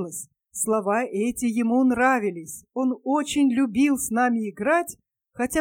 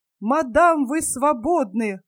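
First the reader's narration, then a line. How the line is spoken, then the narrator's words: Joyful shout. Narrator (Russian): радостно крикнул Атанас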